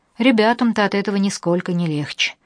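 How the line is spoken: Gloomy objection. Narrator (Russian): возразил Кирилл, мрачно

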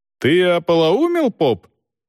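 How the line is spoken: Yelling. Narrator (Russian): заорал Волков

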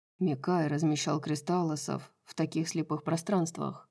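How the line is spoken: Grim. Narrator (Russian): мрачно произнес Хант

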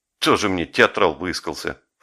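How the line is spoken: Quiet snort. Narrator (Russian): фыркнул негромко Жеглов

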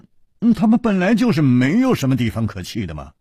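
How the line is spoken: Sighing. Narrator (Chinese): 楚留香叹了一口气说

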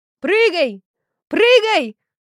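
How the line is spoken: Shouting. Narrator (Russian): кричал Егорыч

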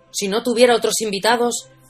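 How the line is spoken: Grumbling. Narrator (Spanish): refunfuñó el encargado

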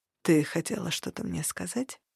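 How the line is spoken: Gentle. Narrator (Russian): ласково спросил Хартат

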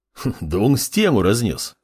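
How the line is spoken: Warrior's chuckle. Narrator (Russian): хохотнул воин

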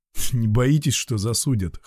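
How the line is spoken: Smirking. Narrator (Russian): хмыкнул Валера

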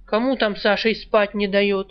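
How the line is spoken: Loud angry woman. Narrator (Russian): Громко и зло поинтересовалась баба

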